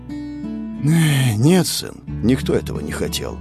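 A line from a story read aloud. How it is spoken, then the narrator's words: Sigh, armored man. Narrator (Russian): вздохнул мужчина в серебряных доспехах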